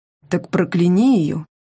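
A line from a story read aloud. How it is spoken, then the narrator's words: Calm suggestion. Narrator (Russian): спокойно предложил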